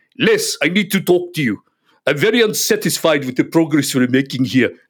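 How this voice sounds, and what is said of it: Strong South African accent. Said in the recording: “very strong South African accent. ... This is my mimicry.”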